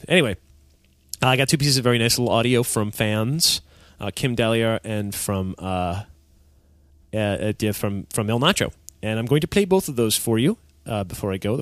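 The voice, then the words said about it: Nasal, congested-sounding voice. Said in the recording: “I'm sorry for the nasally. My voice is a little off today because I'm very nasal... Am I just very, very nasal?”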